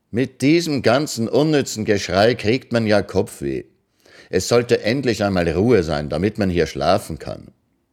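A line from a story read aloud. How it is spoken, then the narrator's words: Loud, carrying, not shouting. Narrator (German): Ekianga, ohne zu rufen, sagte nur laut, aber so, dass man es fünf Hütten weit hören konnte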